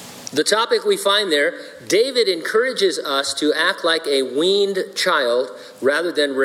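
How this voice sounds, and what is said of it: Usual voice. Nothing is said of it.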